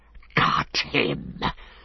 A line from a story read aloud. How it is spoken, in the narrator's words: hissed Gollum in his ear